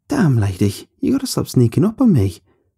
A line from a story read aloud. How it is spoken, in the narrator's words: I laughed and continued